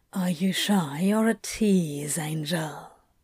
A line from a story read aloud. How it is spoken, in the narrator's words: he whispered